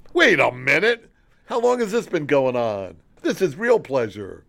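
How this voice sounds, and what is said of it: Imitates another person's voice. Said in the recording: “This is my impression of Pam next weekend.”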